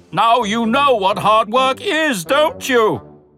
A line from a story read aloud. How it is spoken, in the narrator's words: chuckled Gordon